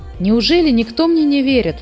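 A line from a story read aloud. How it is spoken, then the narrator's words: Exclaimed. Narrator (Russian): воскликнул Муми-тролль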